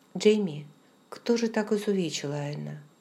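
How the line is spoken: Quick reply, heavy sigh. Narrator (Russian): ответил сразу же, однако тяжело вздохнув при этом

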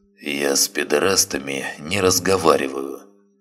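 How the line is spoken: Muttered. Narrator (Russian): буркнул Бровкин

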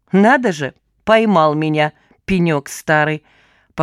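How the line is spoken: Amused snort. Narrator (Russian): хмыкнула она

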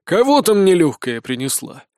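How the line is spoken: Grumbling. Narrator (Russian): пробурчал сержант

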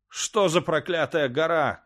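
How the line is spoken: Shout. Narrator (Russian): крикнул он

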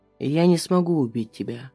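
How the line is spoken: Quiet. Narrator (Russian): говорит Пальчевский тихо

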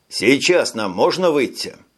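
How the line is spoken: Plain. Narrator (Russian): спросил Тони

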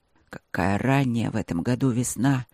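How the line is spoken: Growling voice. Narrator (Russian): проговорил Бермонт рычаще

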